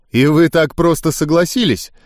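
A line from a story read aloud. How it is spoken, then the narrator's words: Skeptical snort. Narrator (Russian): недоверчиво хмыкнул я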